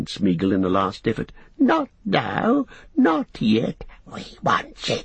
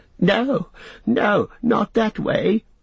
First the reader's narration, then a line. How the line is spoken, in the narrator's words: wailed Smeagol